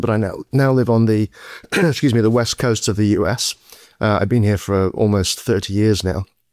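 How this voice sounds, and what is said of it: British accent. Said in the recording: “my outrageous British accent”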